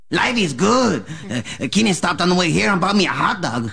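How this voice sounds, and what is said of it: Exaggerated caricatured accent. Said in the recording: “That accent, to me, does feel racist... This one is more exaggerated. It's not just an accent. It's a caricature.”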